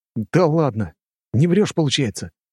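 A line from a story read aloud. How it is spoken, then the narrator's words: Surprised exclamation. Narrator (Russian): Удивленно воскликнул Костя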